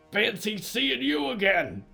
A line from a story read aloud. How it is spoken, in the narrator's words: he grunted